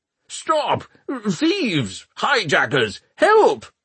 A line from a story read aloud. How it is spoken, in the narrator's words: the balloonist was shouting